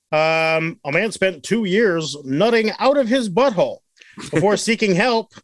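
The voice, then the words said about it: Mock newscaster voice. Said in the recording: “This is my newscaster voice.”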